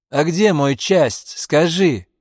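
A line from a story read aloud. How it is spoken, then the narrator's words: Shouted. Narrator (Russian): крикнул он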